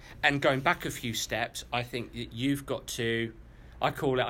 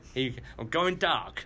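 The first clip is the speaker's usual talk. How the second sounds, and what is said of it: Put-on American accent. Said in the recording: “Great American accent there.”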